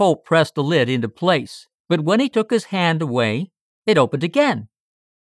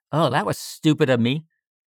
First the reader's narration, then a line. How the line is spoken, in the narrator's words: Richard Holt muttered